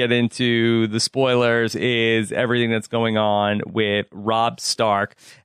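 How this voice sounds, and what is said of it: Usual voice. Nothing is said of it.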